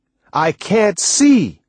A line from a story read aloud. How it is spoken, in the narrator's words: Angrily, I said